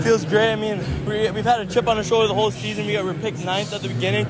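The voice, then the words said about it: Out of breath, panting. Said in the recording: “I can tell you're, you're out of breath right now.”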